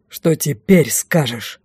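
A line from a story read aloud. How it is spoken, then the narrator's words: Growl. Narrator (Russian): рыкнул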